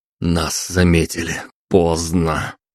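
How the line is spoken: Breathless exhale. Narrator (Russian): выдохнул

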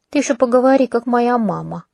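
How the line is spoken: Grumbling. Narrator (Russian): проворчала

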